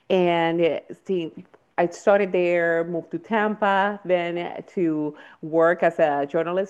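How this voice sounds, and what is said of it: Puerto Rican accent. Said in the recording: “as you can sense from my accent, I'm from Puerto Rico”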